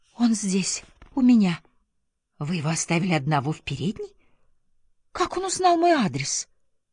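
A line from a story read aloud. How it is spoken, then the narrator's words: Frightened whisper. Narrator (Russian): от испуга прошептала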